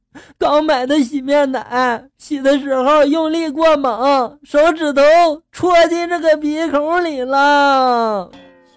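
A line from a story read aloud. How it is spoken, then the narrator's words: Tearful wife. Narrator (Chinese): 二货媳妇带着哭腔就说了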